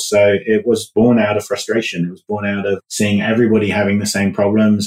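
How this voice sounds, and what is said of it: British English accent. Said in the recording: “as you can tell from my accent, I'm from the UK originally”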